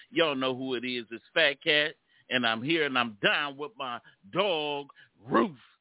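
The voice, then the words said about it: Preacher voice. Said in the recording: “What was that preacher voice?”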